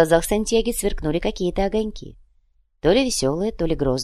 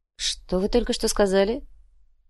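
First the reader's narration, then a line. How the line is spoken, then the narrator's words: Quiet trembling voice. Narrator (Russian): Уйбуй тихим дрожащим голосом произнес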